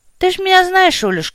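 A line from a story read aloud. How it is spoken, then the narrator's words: Sigh. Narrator (Russian): вздохнул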